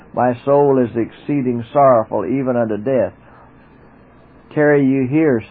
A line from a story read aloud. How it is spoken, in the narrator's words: said he